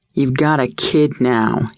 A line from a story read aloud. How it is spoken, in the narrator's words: growled